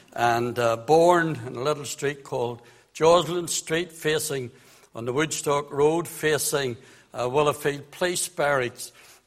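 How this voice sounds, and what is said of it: Belfast Northern Irish accent. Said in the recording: “I was brought up in the city of Belfast. You would know that from my very polished accent.”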